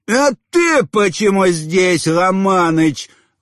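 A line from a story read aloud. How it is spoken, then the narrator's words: Sudden bark. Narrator (Russian): вдруг рявкнул на самого босса Чингис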